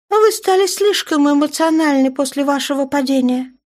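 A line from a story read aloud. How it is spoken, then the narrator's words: Calm girl. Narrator (Russian): спокойно ответила девчонка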